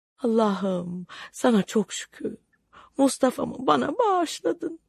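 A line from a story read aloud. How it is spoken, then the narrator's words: Mother moaning. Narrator (Turkish): Zübeyde anne inleyerek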